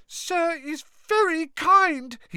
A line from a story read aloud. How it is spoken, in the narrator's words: he squeaked, his eyes brimming with tears again